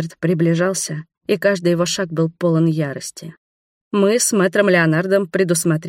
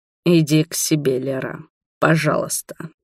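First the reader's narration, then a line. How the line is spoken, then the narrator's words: Grating through teeth. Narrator (Russian): проскрежетал сквозь зубы он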